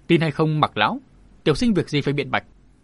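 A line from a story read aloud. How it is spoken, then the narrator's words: Cold reply. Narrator (Vietnamese): Yến Long Vân lạnh lùng đáp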